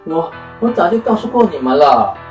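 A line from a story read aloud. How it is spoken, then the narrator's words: Breathless. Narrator (Chinese): 妙丽啊，喘着气说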